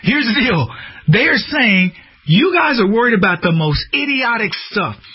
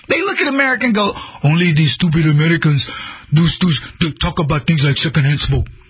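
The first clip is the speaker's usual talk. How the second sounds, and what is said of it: Put-on African accent, not convincing. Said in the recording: “I don't know if that was a good African accent. Probably not.”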